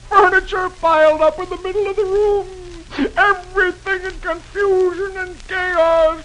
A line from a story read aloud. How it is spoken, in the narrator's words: the tears roll down Dagwood's face, and he moans